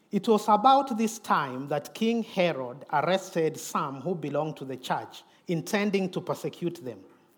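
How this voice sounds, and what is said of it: Noticeable non-native accent. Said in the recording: “you can listen to my accent”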